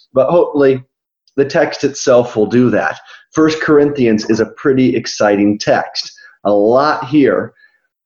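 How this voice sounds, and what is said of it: Rough, subdued voice from illness. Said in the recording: “finishing up a pretty bad cold slash flu ... my voice sounds really bad. So I won't be as loud and animated with my voice”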